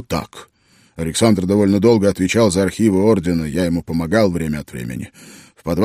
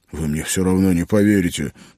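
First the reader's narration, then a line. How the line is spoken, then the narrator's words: Grumble after pause. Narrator (Russian): помолчав, буркнул Роджеролло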